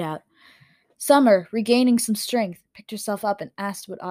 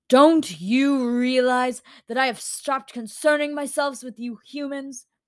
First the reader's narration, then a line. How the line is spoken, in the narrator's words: the dream keeper spat back